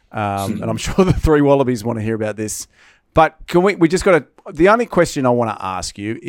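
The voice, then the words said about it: Excited voice. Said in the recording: “You can hear the excitement in my voice.”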